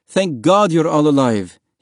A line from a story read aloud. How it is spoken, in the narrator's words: cried